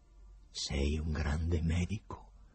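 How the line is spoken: Quiet speech in Greek. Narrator (Italian): disse piano in greco Pilato

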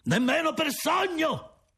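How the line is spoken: Shouted retort. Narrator (Italian): grida di rimando

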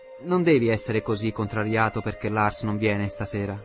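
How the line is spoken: Plain. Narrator (Italian): disse

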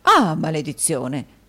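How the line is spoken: Exclaimed. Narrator (Italian): esclamò il signor Mantalini

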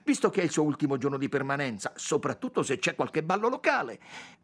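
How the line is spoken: Blurted out suddenly. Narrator (Italian): sbottò tutta un tratto Yvonne

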